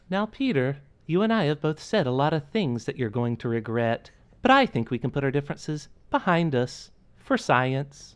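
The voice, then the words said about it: Impression of a computer character voice. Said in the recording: “do a GLaDOS impression”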